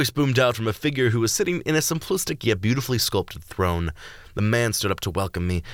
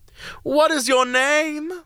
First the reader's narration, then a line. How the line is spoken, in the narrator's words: asked, his voice as sweet as prime nectarine peel and filled with chorus of excitement